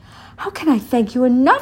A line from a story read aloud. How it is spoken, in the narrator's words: cried